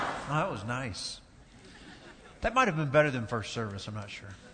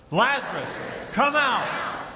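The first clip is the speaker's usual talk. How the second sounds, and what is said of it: Loud shouted call. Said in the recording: “in a loud voice”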